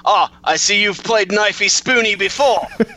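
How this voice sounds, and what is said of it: Imitated Australian accent. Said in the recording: “Great impression ... spot-on Australian impressions”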